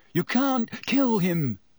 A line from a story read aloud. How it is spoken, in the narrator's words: he said breathlessly